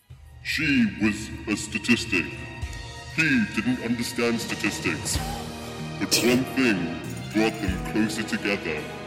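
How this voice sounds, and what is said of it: Dramatic movie trailer announcer voice. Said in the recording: “in that movie announcer voice ... The trailer voiceover. ... The trailer voice”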